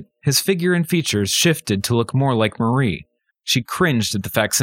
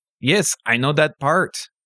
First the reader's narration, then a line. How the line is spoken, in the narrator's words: said Marie